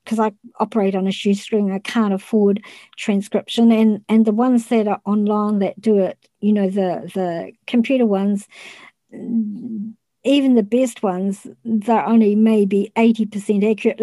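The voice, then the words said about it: New Zealand accent. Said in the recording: “the Kiwi accent, they always can't understand what I'm saying”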